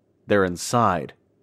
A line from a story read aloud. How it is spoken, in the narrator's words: as calmly as he could